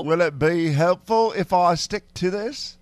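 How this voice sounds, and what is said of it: Put-on British-Australian accent. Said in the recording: “This is a British Australian accent together ... Our favorite British Australian”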